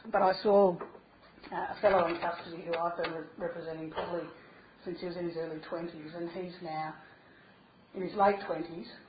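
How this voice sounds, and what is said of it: Slightly hoarse voice. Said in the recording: “I'm a bit hoarse because I've been talking for a long time”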